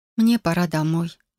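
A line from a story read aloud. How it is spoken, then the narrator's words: Sigh. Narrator (Russian): вздохнула я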